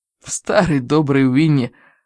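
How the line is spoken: Breathed, to himself. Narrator (Russian): выдохнул отец, словно сам себе

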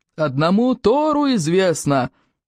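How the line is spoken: Yelling. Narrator (Russian): вопил Плевака

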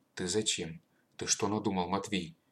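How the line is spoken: Quiet old man's question. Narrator (Russian): тихо спросил прадед

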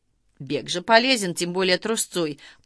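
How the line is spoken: Formal official tone. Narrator (Russian): поддержал тем же официальным тоном Баранкин

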